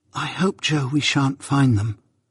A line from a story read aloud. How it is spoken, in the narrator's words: I treasonably whispered to Joe